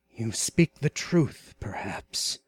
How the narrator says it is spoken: muttered Conan

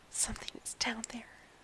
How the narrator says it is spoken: Matt said in the same nervous whisper

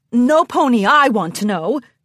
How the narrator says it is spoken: Cheese Sandwich laughed

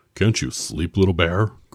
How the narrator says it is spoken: grunted Big Bear

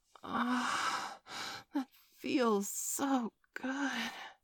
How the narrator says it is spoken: she breathed

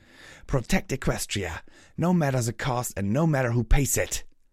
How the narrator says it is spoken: Pyra snarled

